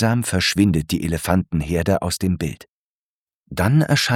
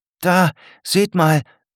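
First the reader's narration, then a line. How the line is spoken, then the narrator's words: Calling to the class. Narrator (German): ruft Murat in die Klasse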